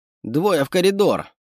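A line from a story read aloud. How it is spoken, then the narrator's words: Shouted order. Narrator (Russian): снова выкрикнула приказ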